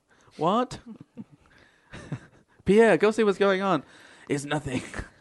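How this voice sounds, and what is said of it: Put-on French Canadian accent. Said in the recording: “Do you guys do a different accent for French Canadian as to French?... yeah, absolutely. Did you not hear the subtle difference?”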